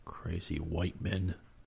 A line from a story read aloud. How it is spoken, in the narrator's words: Geronimo muttered